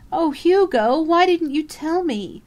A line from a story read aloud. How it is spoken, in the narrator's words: Karen Marshall wailed